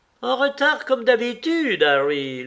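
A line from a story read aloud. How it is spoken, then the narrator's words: Aunt shouting. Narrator (French): lui cria sa tante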